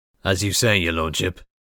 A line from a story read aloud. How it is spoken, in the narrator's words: Voslo grunted